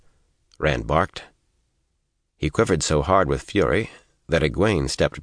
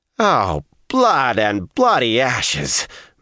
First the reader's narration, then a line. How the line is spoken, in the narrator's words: Matt groaned